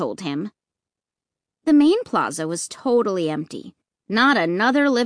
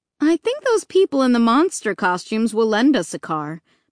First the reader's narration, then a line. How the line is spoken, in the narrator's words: Mom replied